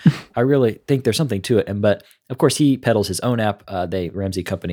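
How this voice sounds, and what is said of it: Usual voice. Nothing is said of it.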